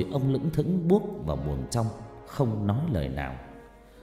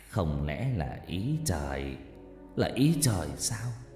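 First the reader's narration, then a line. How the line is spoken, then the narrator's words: Sad, melancholy. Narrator (Vietnamese): Bố nó nói với giọng u buồn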